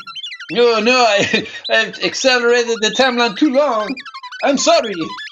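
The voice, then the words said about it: Put-on French accent. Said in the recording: “I receive my French, as you can clearly hear, French accent back now”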